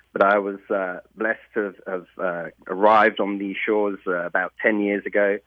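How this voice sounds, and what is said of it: English accent. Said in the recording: “I can tell by your accent, you weren't born in Tennessee ... I'm an old Englander. So I'm from Hampshire in the UK, or a city called Portsmouth”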